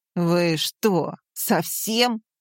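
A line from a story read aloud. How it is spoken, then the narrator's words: Angry growl. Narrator (Russian): зарычал он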